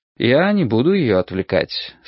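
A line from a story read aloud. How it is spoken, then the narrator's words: Calm answer. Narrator (Russian): спокойно ответил я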